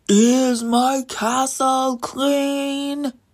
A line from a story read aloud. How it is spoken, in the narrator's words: the giant would yell